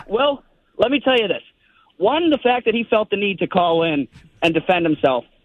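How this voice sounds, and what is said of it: Out of breath. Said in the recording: “sorry, I'm out of breath. I'm walking my dog.”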